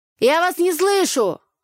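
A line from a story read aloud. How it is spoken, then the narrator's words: Shouted again. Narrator (Russian): вновь крикнул Игорь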